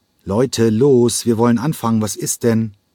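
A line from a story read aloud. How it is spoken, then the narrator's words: Impatient call. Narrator (German): rief er ungeduldig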